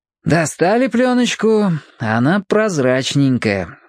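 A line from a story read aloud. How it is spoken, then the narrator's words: Sighing. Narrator (Russian): вздохнул Борис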